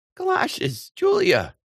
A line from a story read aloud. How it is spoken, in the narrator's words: exclaimed her sister